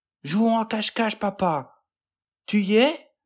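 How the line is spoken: Child shouting. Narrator (French): cria l'enfant

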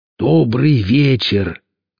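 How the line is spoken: Very joyful shout. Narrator (Russian): максимально радостным голосом крикнул он в сторону леса

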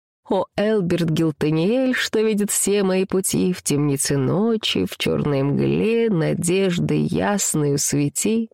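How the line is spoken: Singing with hesitant mandolin. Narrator (Russian): Лучник неуверенно пощипывая струны, поет

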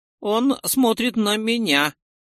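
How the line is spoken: Trembling voice. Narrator (Russian): Дрогнувшим голосом сообщил один из копейщиков

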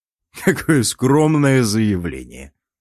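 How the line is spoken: Laughing. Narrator (Russian): Рассмеявшись, я

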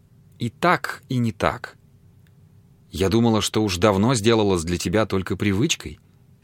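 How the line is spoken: Plain. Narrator (Russian): сказала она

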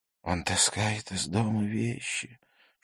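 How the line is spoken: Father complaining in whisper. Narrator (Russian): шепотом посетовал его отец

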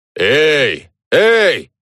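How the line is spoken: Shouting. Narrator (Russian): закричал кто-то справа от нас

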